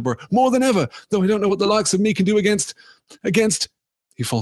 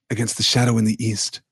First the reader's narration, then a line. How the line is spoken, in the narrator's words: said Strider quietly